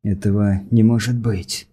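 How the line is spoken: Whisper. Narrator (Russian): прошептал Хирос

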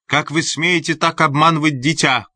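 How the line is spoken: Shouting from behind wall. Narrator (Russian): крикнула она из-за стены

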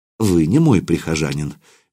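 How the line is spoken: Gentle. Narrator (Russian): мягко сказал отец Иоанн

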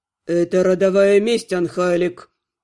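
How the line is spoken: Cold reply. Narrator (Russian): Холодно отозвался он

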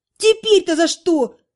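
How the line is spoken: Wailing. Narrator (Russian): взвыла Наташа

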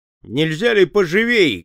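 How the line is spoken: Rude shout. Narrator (Russian): грубо крикнул Том

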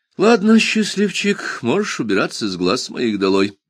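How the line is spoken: Sighing. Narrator (Russian): вздохнул Джуфин

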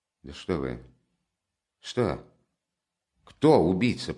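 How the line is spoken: Barely audible mutter. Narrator (Russian): пробормотал Раскольников едва слышно

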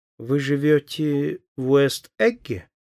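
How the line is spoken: Drawled, somewhat haughtily. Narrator (Russian): протянула она несколько свысока

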